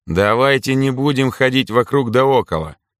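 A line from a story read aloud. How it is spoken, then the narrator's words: Calm, emotionless. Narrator (Russian): спокойно заявил, по-прежнему без эмоций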